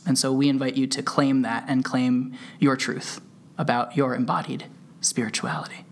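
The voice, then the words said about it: Calm soothing yoga-teacher podcast voice. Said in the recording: “bringing back the podcast voice ... I would call this the yoga teacher voice as well”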